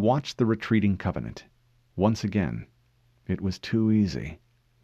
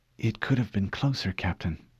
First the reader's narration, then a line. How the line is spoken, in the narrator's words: Cortana whispered